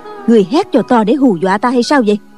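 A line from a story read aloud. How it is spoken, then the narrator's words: Angry woman. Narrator (Vietnamese): Trương phu nhân tức giận nói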